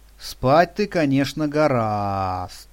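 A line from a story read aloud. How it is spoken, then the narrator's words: Moralizing drawl. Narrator (Russian): нравоучительно протянул он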